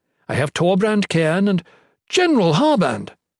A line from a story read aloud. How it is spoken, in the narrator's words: Volney exclaimed